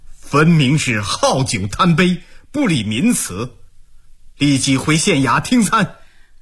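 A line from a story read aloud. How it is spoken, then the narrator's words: Sneering, stern rebuke. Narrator (Chinese): 毛鹏冷笑数声，声色俱厉地训斥道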